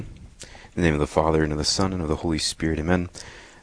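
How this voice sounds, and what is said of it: Smooth, resonant radio-style voice. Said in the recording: “You have a great radio voice.”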